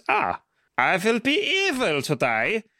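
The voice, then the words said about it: Generic foreign European accent. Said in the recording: “in a generically foreign accent... Pan-European. Not provably German... Could be Austrian... Sort of Austrian.”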